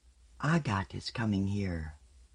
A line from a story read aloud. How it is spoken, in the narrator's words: She said aloud, though so softly only those nearest her heard